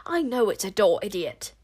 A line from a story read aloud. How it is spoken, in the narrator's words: spat the witch-smeller